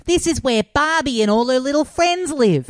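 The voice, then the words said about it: Imitates an Australian accent. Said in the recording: “her just like Australian accent being like”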